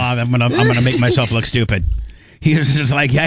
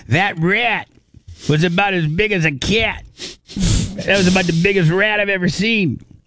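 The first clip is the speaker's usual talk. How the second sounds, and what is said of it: Put-on New York accent. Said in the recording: “my very good New Yorker accent ... that sounded perfect ... my Greg D impersonation. I'm not very good at it.”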